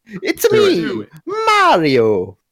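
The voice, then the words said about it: Mario video game character voice. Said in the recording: “I can do a Mario impression, kind of. ... that was pretty good”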